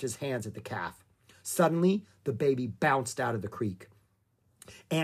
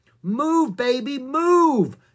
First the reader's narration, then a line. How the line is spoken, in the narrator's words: shouted Jack